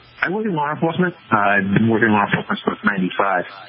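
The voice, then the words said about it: Massachusetts accent. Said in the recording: “I'm listening to your accent. You got to be from Massachusetts, someplace.”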